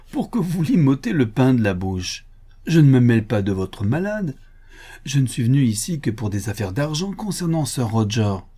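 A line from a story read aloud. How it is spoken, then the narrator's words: Laughing. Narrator (French): dit le docteur Thorne en riant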